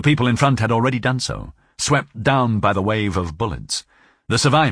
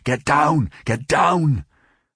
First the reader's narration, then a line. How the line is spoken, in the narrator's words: Several voices shouted at the same time